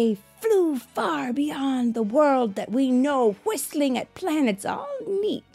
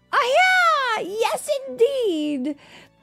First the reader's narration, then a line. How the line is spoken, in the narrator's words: Juan shouted